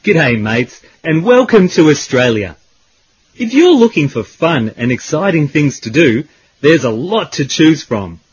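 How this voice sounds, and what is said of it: Australian accent. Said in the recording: “the Australian accent, which sounds are very different from British English”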